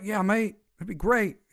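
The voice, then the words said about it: Failed attempt at Australian accent. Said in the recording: “Except he's not Australian. And that wasn't an Australian accent.”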